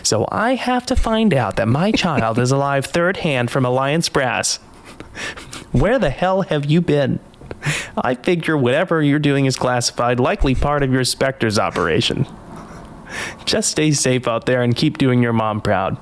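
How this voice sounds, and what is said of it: Impression of Hannah Shepard. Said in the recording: “Are you going to talk like her? ... I don't know if I can do a Hannah Shepherd impression, but I'll try.”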